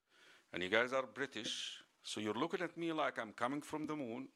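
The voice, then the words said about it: American-accented English. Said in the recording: “I speak an American accent ... I'm not an American even. I'm Egyptian.”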